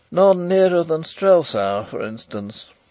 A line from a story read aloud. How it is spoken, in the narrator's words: said poor Fritz with a lovelorn sigh